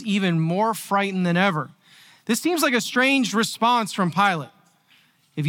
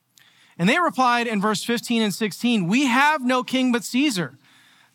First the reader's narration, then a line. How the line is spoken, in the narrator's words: the leading priest shouted back